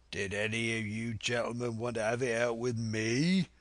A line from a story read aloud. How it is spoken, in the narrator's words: roared Silver